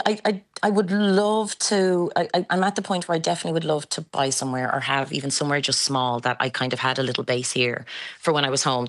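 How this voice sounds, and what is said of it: Irish accent. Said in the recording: “the accent, you're still a quintessential Irish girl”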